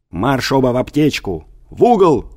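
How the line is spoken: Father shouting. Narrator (Russian): закричал отец

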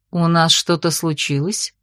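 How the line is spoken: Soft inquiry. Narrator (Russian): Мягко поинтересовалась Тихоня

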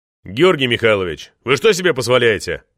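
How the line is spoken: Furious drunken roar. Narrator (Russian): Взревел багровый от гнева и коньяка Шуваев

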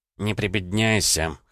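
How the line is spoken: Wry snort. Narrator (Russian): хмыкнул Громов

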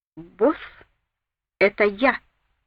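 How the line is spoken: Slow. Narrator (Russian): медленно произнес Мэсэй

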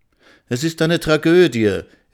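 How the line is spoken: Exclaiming. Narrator (German): rief Frau Miller aus

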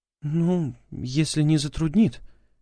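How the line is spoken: Uncertain drawl. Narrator (Russian): неуверенно протянула она

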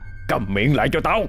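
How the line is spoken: Irritated snap. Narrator (Vietnamese): tiếng khóc thúc thích của đám con cháu bắt đầu nổi lên, làm cậu Hai Lúa gắt gỏng

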